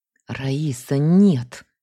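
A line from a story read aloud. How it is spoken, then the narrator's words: Angry hiss. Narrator (Russian): сердито прошипела я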